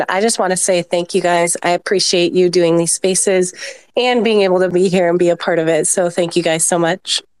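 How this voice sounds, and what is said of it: Weak, nearly lost hoarse voice. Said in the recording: “I can barely talk. My voice is almost gone. ... My voice is awful. ... I'm so sick.”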